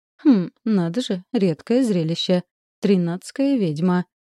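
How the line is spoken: Chuckling. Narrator (Russian): хохотнула Виолет

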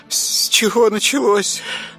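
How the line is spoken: Old woman sighing. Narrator (Russian): Вздохнула старуха

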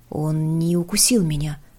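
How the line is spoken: Whisper. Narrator (Russian): прошептал он

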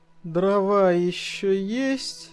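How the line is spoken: Sleepy question. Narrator (Russian): сонно спросил я

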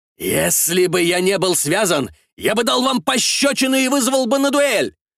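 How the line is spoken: Shouted outburst. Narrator (Russian): выкрикнул англичанин

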